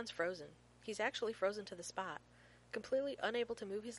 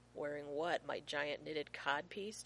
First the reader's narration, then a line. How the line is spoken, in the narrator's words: John asks dryly